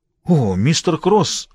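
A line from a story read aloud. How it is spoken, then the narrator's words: Exclamation. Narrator (Russian): воскликнул Харви Дуб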